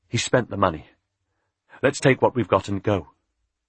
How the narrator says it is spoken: Richard said anxiously

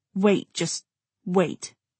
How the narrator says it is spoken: he said roughly

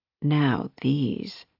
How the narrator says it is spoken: she murmured

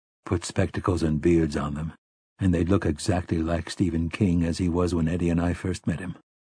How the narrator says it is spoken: Roland said in a low voice

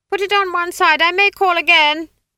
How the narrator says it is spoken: she shouted

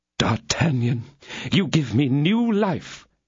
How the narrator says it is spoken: cried Aramis

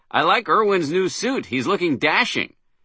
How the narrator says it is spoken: I blurted out with forced jollity

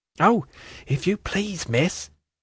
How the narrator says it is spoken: said Charlie in a whisper, with her eyes at their roundest and largest

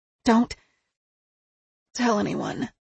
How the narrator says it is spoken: she muttered intently

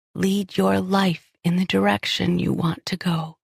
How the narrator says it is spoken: she whispered, her voice thickening with emotion

